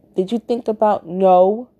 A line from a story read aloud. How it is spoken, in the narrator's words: Zora exclaims